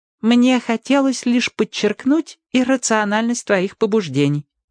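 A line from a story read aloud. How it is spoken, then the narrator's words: Plain. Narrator (Russian): ответил Вух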